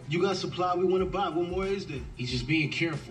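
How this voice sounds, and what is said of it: California American accent. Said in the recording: “California accent... Talk like YG”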